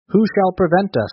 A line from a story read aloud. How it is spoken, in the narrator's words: laughed a big man, amused at the fierce little figure